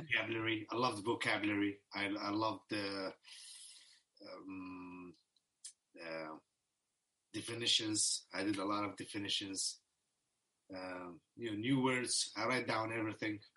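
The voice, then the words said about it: Middle Eastern accent in English. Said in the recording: “You got a Middle Eastern accent for English.”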